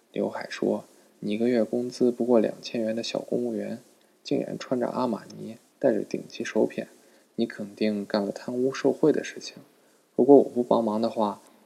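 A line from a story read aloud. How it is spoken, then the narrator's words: Hushed, low voice. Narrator (Chinese): 老婆压低声音说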